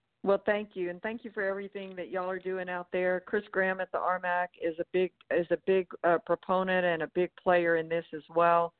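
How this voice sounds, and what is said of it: Southern American accent. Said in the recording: “Hope the Southern accent wasn't too much for y'all”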